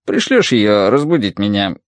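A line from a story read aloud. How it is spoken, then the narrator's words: Genuine laughter. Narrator (Russian): Вэйсун рассмеялась, по-настоящему рассмеялась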